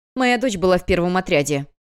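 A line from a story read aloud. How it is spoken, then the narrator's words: Barked. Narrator (Russian): рявкнула женщина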